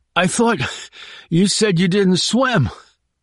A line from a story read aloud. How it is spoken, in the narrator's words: he added in a hurt tone